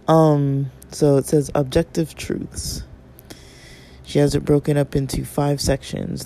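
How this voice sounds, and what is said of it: Hoarse, fading voice. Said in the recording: “I'm losing my voice, like, completely”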